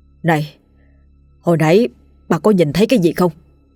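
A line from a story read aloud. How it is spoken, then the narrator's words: Trembling question. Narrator (Vietnamese): lão run run hỏi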